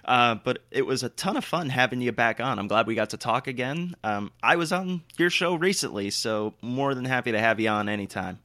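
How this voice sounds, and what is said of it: Raspy, worn-out voice. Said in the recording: “my voice is shot. I was talking very loud, very long for, like I said, almost 3 hours, so I'm sorry if I sound a bit raspy.”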